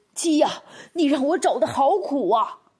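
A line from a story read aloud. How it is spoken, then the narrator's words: Shouting while running. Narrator (Chinese): 那汉子一面追一面喊道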